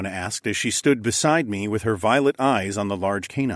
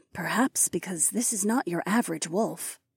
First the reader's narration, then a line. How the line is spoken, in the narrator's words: Lyca said in a soft voice